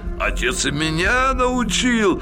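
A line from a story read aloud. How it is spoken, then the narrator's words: Cheerful man. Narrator (Russian): весело сказал немец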